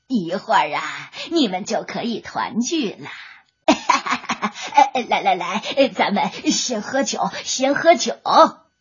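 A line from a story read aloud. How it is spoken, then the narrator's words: Sly smiling. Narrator (Chinese): 蝎子精笑眯眯的说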